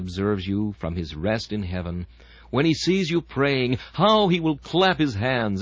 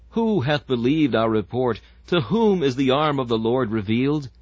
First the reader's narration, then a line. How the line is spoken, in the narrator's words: pleading with God